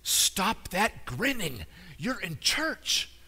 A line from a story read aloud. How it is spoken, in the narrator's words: Her mother whispered harshly